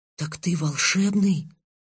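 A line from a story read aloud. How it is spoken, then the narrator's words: Quiet, shy question. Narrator (Russian): Тихо, словно стесняясь самого себя, спросил я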